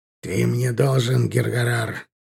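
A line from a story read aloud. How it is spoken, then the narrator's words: Through gritted teeth. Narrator (Russian): процедил Аркар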